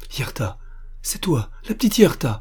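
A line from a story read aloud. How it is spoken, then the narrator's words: Exclaiming. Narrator (French): s'écria Armand Louis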